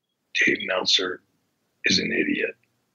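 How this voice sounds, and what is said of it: Whispered speech. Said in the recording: “I'm going to whisper this because I don't want anybody to hear this”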